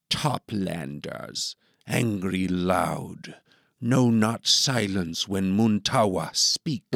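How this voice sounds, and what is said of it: Hard-to-understand divergent dialect accent. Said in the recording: “accent is hard to understand. Their dialect has diverged in isolation”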